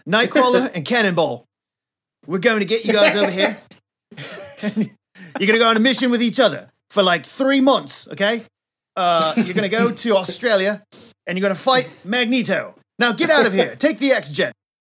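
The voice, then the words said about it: Put-on, possibly Australian accent. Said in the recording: “Australian Professor X here ... I don't know what accent that is, but I'm going to go with it”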